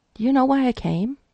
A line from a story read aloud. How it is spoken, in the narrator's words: Frank clapped his hands together a couple times nervously before he said